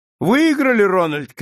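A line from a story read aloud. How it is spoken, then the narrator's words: Triumphant shout. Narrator (Russian): крикнул с торжеством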